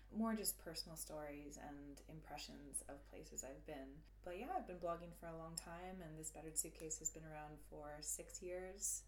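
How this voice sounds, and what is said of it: Canadian accent. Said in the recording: “I'm sure listeners have picked up on an accent from ... I'm Canadian.”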